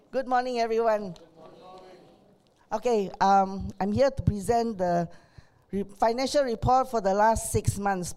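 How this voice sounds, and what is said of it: Strained, unwell-sounding voice. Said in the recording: “Pardon my voice.”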